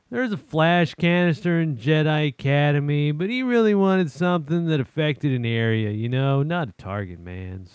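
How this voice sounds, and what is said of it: Lamenting, mournful reading voice. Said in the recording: “in a lamenting voice.”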